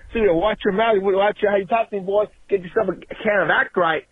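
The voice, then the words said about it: Southern Louisiana accent. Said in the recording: “said that I don't call with no accent ... this is what a real man sounds like ... down here in the South. By Louisiana.”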